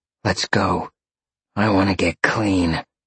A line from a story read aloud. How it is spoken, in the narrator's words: Roxy growled